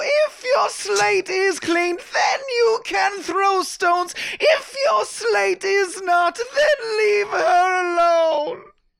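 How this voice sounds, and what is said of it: Ragged vocal fry singing. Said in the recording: “that was a raggedy-ass vocal fry ... all Jesus is raggedy as vocal fry on that part”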